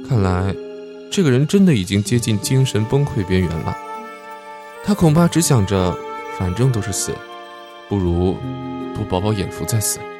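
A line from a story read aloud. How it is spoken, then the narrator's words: Sighing. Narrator (Chinese): 吴小川叹了口气说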